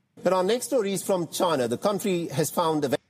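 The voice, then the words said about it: Thick accent. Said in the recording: “He's got quite a thick accent.”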